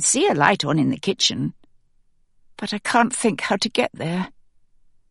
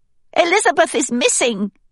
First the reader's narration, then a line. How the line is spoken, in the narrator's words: I shout